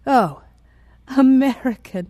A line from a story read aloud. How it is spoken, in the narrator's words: He laughed a hollow laugh